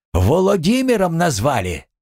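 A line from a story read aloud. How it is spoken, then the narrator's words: Shouting through doorway. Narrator (Russian): Улитушка, крикнула в дверь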